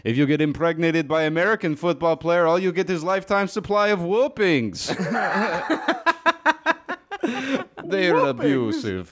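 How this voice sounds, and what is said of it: Put-on Russian accent. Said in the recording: “I don't know how to do Russian accent. ... Nah, you got it.”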